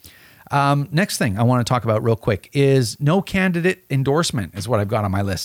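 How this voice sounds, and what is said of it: Slightly hoarse voice. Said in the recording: “You can hear my voice is getting hoarse already”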